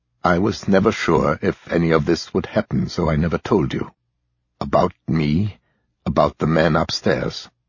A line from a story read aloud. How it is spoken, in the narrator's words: said quietly